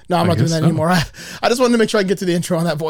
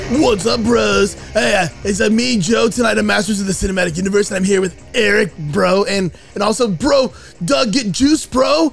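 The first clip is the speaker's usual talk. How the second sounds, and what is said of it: Aggressive pumped-up bro voice. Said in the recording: “I blew my voice out ... the most aggressively, like, bro ... that voice”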